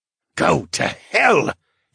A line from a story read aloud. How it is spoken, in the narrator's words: he sputtered and coughed again